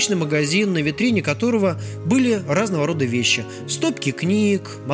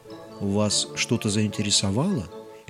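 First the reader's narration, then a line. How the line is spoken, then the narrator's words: Soft question. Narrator (Russian): мягко спросил он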